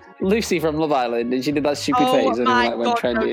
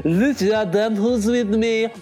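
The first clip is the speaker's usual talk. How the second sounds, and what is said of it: Imitates another person's voice. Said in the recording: “Don't you think I do a really good impression of the guy?”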